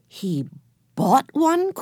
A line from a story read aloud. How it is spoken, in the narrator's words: cried Henry